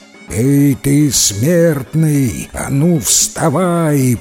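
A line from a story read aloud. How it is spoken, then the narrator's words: Roar. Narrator (Russian): проревел Дев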